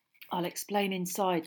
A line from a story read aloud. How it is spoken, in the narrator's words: said Ron quietly